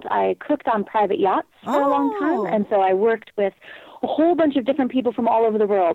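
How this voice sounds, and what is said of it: Mixed English-tinged accent. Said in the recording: “Do you have an English accent? ... I have a bit of a Mongo accent now”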